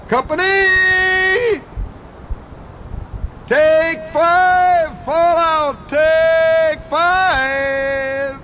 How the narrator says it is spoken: he would holler

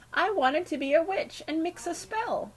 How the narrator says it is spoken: she sobbed to the stony-faced Bagthorpes

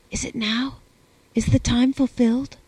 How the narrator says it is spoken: I whispered

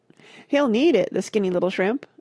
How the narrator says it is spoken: a girl said, laughing

